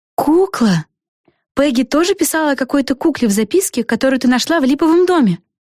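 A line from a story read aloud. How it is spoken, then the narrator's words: Exclamation. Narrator (Russian): воскликнула Флафанора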